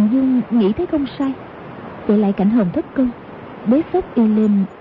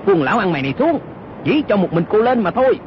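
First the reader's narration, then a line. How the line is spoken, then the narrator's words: Shouting. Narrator (Vietnamese): y quát lên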